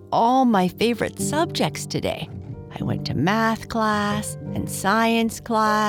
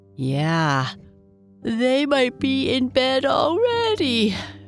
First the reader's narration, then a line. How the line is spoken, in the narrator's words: she said with a yawn